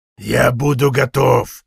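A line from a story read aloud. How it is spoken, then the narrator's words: Growling. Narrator (Russian): продолжал рычать Сган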